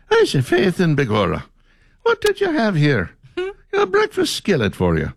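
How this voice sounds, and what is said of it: Weak put-on Irish accent. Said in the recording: “It's like, really? That's the whole Irish accent?”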